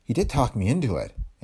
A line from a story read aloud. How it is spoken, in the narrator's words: Ann said